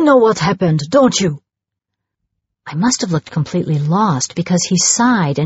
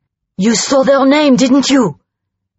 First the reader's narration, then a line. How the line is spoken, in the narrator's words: He barked